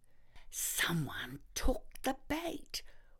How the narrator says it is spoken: whispered Mr

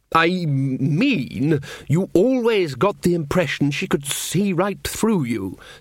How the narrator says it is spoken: said Ridcully, slightly more sharply than he'd intended

